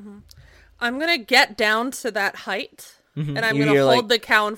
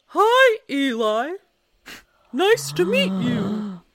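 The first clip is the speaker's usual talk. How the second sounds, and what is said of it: A put-on character voice. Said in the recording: “in my Clive voice”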